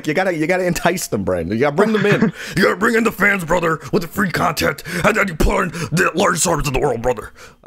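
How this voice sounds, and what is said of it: Hulk Hogan impression. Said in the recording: “doing a Hogan impression”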